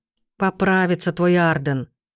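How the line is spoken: Grumbling mutter. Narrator (Russian): пробурчал тот же голос

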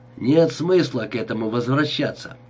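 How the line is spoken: Dry. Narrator (Russian): сухо сказал он

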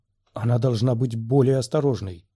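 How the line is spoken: Whispered. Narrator (Russian): прошептал Оби-Ван

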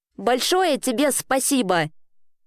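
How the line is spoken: Snapping retort. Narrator (Russian): огрызнулась Элли

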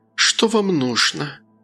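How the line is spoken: Sighing. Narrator (Russian): вздохнув, произнесла

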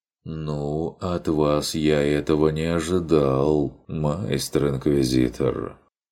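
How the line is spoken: Reproachful drawl. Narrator (Russian): упрекающе протянул фон Эбенхольц

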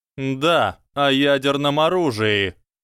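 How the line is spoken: Nearly shouting. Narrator (Russian): Профессор Квирл почти кричал

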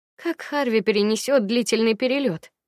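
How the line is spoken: Sighing. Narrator (Russian): вздохнула я

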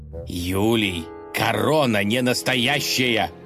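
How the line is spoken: Frantic distorted yell. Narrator (Russian): не своим голосом завопил князь

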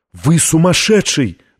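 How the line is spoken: Exclaiming, young woman. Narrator (Russian): воскликнула девушка

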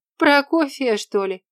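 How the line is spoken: Merry laughter. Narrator (Russian): весело расхохоталась Настя

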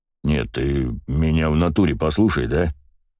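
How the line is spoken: Deep bass voice. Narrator (Russian): пробасил Коврига

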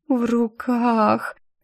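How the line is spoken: Blissfully dim repetition. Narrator (Russian): с видом блаженной идиотки повторила я

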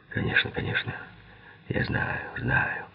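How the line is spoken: Whisper. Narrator (Russian): прошептал Киган

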